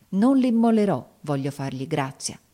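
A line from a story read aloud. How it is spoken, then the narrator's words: Exclaimed. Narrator (Italian): esclamai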